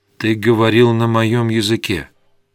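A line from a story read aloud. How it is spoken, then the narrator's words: Calm, composed. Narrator (Russian): уже взяв себя в руки, он спокойно сказал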